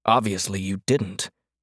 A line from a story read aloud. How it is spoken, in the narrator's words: Hart snapped, his tone so sharp